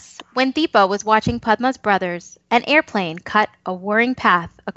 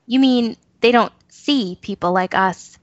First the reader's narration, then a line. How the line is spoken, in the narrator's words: Banu says